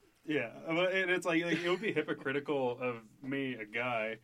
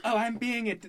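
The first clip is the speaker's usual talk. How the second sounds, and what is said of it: Teenage girl voice. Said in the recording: “That's my teenage girl voice. I'm being a teenage girl.”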